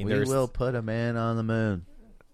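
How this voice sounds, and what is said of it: President Kennedy impression. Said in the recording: “pretty good impression”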